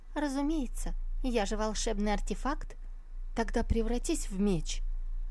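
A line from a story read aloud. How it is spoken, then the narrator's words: Thin high little voice. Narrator (Russian): Чон Юй ответила тоненьким голоском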